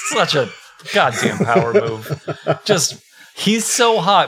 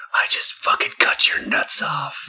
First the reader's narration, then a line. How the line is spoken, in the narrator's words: he just quietly whispered